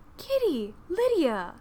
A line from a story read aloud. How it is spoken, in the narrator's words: exclaimed Jane